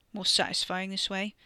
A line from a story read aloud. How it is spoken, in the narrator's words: Wes mumbled against his torn sleeve